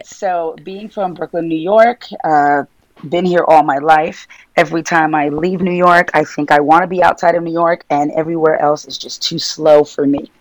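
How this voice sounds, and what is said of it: New York Brooklyn accent. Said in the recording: “you can tell by my New York accent, Brooklyn accent, that I'm from Brooklyn, New York”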